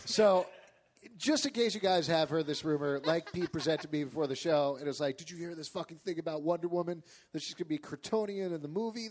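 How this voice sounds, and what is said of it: Imitates another person's voice. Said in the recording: “great impression of me”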